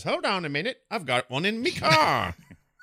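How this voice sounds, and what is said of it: Put-on, not-quite-British accent. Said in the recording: “I don't know, he's not British. I don't know why I'm doing that voice... The accent you were doing wasn't really British”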